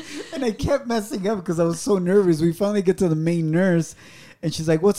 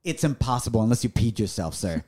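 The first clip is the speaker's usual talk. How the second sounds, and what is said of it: Put-on New York accent. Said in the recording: “With a New York accent”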